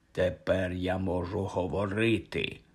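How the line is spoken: Indistinct voice. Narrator (Ukrainian): промовило воно невиразним голосом

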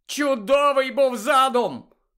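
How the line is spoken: Angry shout. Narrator (Ukrainian): крикнув він Герміоні, бажаючи зігнати бодай на комусь злість

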